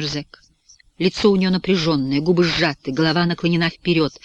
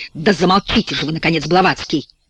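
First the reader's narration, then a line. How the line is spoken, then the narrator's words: Shrill exclamation. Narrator (Russian): восклицает пронзительным голосом Робби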